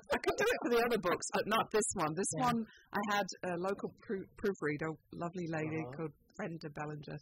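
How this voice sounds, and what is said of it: Very British accent. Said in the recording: “I have a very British accent. ... it sounds authoritative.”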